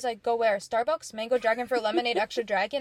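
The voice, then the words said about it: Very fast rattled-off speech. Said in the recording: “And he says it that fast. He says it so fast. It rolls off his tongue so well.”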